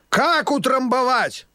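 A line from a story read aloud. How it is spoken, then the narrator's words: Loud croaking old voice. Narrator (Russian): громко каркал старый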